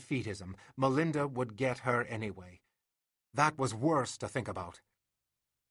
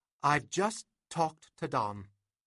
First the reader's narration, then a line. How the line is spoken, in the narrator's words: she said unnecessarily